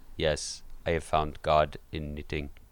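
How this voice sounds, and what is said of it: Vaguely European put-on accent. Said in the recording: “I'll come back with, like, a vaguely European accent.”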